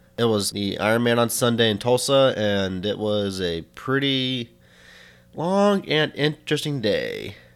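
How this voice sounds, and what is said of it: Tired-sounding voice. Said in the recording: “if I sound a little tired”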